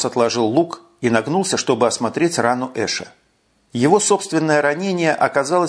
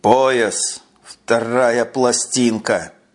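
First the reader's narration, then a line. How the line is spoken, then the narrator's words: Through gritted teeth. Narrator (Russian): Процедил Эш сквозь зубы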